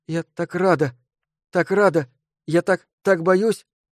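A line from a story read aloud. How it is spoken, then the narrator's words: Near whimper. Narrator (Russian): Мицуко чуть ли не скулила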